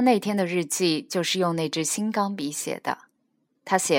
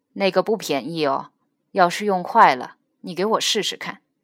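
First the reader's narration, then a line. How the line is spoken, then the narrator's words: Cold voice. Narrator (Chinese): 父亲在里头又冷冷地出声说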